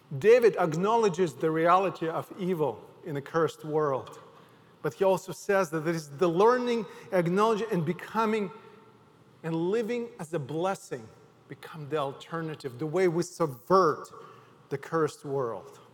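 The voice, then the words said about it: Ukrainian accent in English. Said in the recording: “From my accent, you can tell that I was not born in America... I am from Ukraine”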